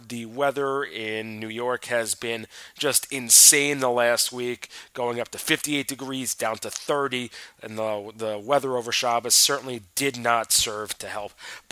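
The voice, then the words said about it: Sick, congested voice with sniffles. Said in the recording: “You might hear it in my voice. I'm a little under the weather... the voice and the sniffles”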